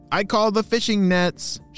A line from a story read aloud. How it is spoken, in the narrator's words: shouted Lee